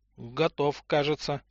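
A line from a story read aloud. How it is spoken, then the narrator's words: Uncertain. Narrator (Russian): неуверенно сказал Матвей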